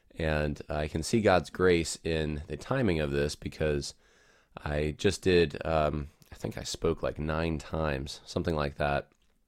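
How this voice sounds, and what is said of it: Sick, slightly off voice. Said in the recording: “You can probably hear it in my voice as I'm recording this that I'm probably not sounding quite 100%. And that's probably because I suspect I have COVID.”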